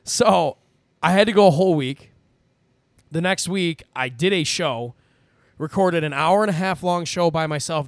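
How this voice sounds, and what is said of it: Rough, scratchy, partly lost voice. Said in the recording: “lose my voice ... It's still a little rough, if you can't tell. It sounds a little scratchy ... It's better than it was yesterday”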